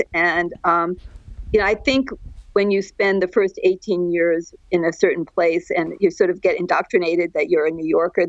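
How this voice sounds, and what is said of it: New York accent. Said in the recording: “people, when they first meet me, they say, oh, you're a New Yorker ... I accept that I have a New York accent.”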